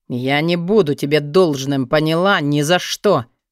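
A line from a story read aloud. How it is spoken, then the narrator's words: Growled. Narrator (Russian): прорычал он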